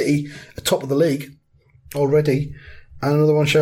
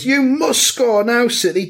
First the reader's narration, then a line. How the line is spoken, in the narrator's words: Fan shouts